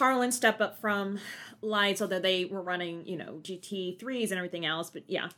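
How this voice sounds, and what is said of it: Usual voice. Nothing is said of it.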